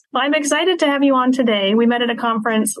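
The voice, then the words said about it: Congested, sick-sounding voice. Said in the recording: “I have a cold, so you're going to have to just bear with my voice.”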